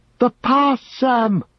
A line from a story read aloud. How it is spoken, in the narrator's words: he cried, not heeding the shrillness of his voice, that released from the choking airs of the tunnel rang out now high and wild